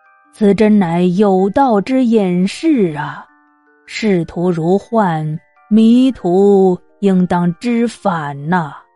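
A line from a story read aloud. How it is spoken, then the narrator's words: Dazed sighing to himself. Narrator (Chinese): 孔子呆呆的，两眼发直，自言自语的叹道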